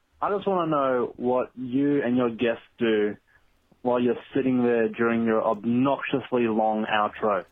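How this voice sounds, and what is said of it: Australian accent. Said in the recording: “that person sounded like they had an accent. This is actually someone from Australia”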